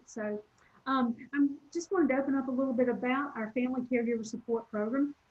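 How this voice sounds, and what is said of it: Southern American accent. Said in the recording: “my Southern accent that people often stop and go, where are you from?”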